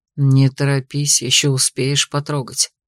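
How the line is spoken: Hoarse male voice. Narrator (Russian): сказал принц хрипло

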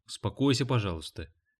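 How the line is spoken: Quiet. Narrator (Russian): тихо произнесла Хелен

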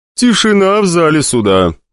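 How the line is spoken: Flat, bored voice. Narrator (Russian): безэмоциональным и скучным голосом попытался привести к порядку пантеон младших богов, бог Дзен

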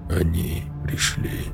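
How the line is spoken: Lifeless barely audible whisper. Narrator (Russian): вдруг едва слышно прошептал Рон безжизненным голосом

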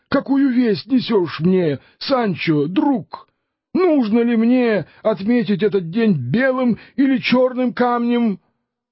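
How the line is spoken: Exclamation. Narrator (Russian): Дон Кихот воскликнул

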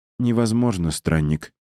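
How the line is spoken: Answered sadly by a girl. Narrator (Russian): ответила девушка, грустно

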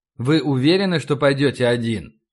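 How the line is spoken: Plain. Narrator (Russian): спросил Лю

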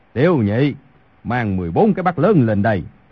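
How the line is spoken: Raised-voice call. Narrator (Vietnamese): cao giọng gọi

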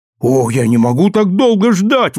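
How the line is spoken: Exclaiming. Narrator (Russian): воскликнул я

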